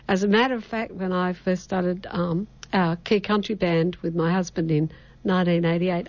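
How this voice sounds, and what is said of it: Rural Australian accent. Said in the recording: “you got a different accent ... I come from northern New South Wales, grew up in the bush ... you just sound like Dolly Parton”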